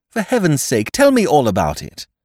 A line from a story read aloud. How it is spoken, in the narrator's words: I cried impatiently